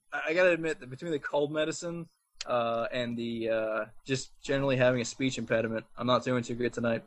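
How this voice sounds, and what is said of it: New Jersey accent. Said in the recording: “the Jersey accent ... my Jersey accent”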